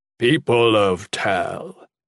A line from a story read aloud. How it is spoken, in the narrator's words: Cairn began in a deep, pleasant voice, as if addressing the crowd at a fair